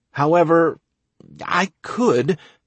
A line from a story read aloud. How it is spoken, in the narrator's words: I stuttered, not really knowing exactly what I wanted to do